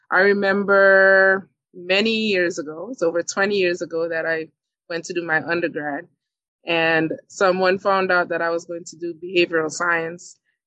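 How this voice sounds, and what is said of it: Caribbean accent. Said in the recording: “you hear my accent. I am from the Caribbean.”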